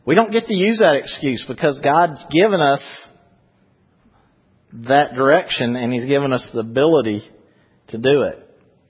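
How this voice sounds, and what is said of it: Louisiana Southern US accent. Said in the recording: “you didn't know you was going to have somebody from Louisiana talking, probably. That's where the accent's from.”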